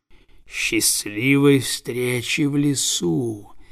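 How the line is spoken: Snake's hiss. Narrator (Russian): прошипел уж

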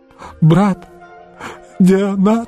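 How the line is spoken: Sobbing. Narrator (Russian): всхлипнул он

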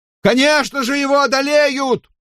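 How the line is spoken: Shout. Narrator (Russian): выкрикнул кто-то

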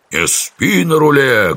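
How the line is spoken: Barked. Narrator (Russian): гаркнул Неклюд

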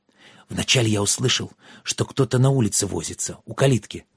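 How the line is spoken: Hurried telling. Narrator (Russian): торопливо рассказывал Йен

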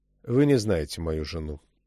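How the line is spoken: Dry remark. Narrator (Russian): сухо заметил Чак

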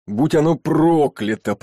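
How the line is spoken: Roared through clenched teeth. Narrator (Russian): проревел он вслух и с такой силой стиснул зубы

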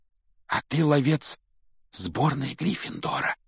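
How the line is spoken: Awed whisper. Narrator (Russian): благоговейно прошептал Колин

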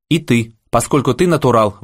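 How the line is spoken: Shouted out. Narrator (Russian): выкрикнул Аким

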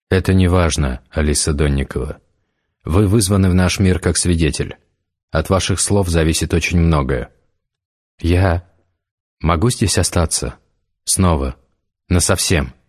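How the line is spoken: Plain question. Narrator (Russian): спросила Алиса

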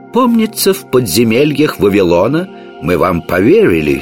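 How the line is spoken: Plain. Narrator (Russian): сказал король

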